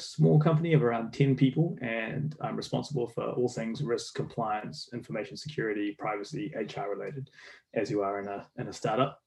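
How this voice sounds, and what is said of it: New Zealand accent. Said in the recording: “As you can tell from my accent, I'm from New Zealand. I'm a Kiwi.”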